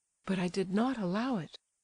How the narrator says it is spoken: murmured the wretched prince

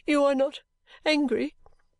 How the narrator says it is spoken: sobbed poor Caddy at last

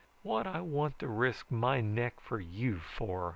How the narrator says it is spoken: I demanded bitterly, memories of Dolly Rixby rising up before me

